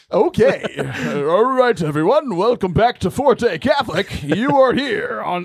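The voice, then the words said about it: Cheesy morning radio host voice. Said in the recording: “I have an amazing radio voice ... I feel like I'm like the morning show guy on some like stupid radio station”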